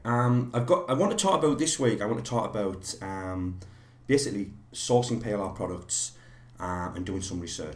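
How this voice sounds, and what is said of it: Slightly croaky, unwell voice. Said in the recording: “excuse my voice. I've actually been a little bit under the weather for the last few days. My voice is ... excuse me if my voice croaks a little bit tonight”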